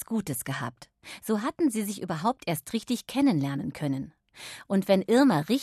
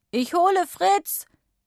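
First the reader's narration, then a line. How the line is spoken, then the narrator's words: Called back. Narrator (German): rief er zurück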